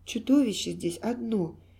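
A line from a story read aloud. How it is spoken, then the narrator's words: Quiet. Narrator (Russian): тихо сказала она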